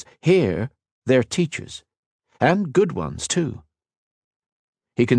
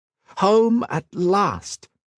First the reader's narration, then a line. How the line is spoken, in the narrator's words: exclaimed